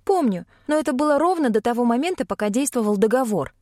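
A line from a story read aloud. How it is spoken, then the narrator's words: Sharp reply. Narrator (Russian): резко ответила я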